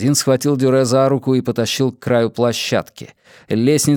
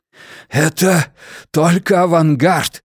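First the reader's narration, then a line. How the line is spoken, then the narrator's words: Hoarse, straining over fire's roar. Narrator (Russian): прохрипел тамплиер, силясь перекрыть хищный клёкот лесного пожара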